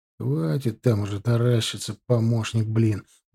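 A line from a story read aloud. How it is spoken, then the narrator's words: Grumbling. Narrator (Russian): проворчал Гончаров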